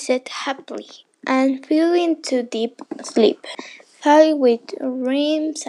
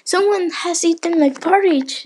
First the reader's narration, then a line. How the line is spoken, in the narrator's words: exclaimed Father Bear